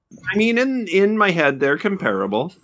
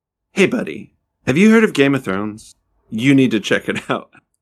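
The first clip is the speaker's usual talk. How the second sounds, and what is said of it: Imitates another person's voice. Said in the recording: “my Ted impression ... Sounds a lot like your John Hamm.”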